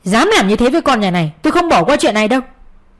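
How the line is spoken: Father's angry voice. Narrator (Vietnamese): giọng của bố bên ngoài giận dữ

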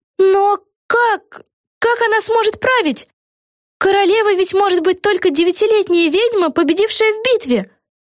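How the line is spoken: Exclamation. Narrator (Russian): воскликнула Вега

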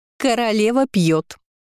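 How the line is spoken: Scream. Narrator (Russian): завопила Лира

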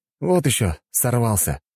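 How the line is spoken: Dismissive snort. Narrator (Russian): фыркнул я

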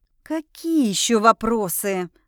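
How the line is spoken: Hissed through teeth. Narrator (Russian): шипит сквозь зубы Энрина, раздраженно

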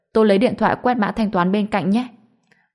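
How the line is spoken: Laughing. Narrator (Vietnamese): Tôi bật cười

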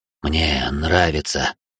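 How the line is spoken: Breathy exhale. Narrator (Russian): выдохнул он

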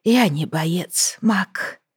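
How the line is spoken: Tearful whisper. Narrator (Russian): прошептала Лайза, размазывая по щеке слезы

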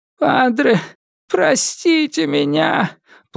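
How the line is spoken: Crying shout. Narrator (Russian): Плачущим голосом закричал Китидзиро

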